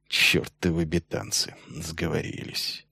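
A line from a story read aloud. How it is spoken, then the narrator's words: Barely audible. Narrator (Russian): И едва слышно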